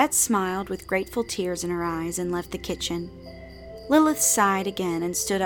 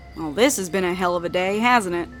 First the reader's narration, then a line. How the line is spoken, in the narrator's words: Aradia laughed humorlessly